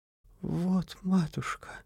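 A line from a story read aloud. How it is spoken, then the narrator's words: Timid younger sister. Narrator (Russian): Робко промолвила младшая сестра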